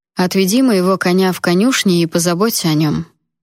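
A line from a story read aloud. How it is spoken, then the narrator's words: Even-toned half-command. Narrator (Russian): ровным тоном то ли приказал, то ли попросил Джун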